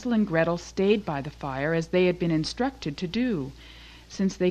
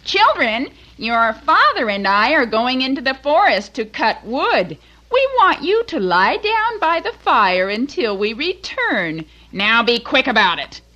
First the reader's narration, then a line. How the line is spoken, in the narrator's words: their stepmother called out